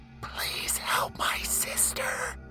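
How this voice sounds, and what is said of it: Soft, frightened female whisper. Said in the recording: “a whispering female begged from the depths of a sorrowful soul ... a voice so soft and so frightened”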